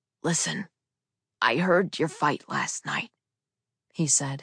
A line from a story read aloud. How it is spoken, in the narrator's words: his voice breathy and hard to understand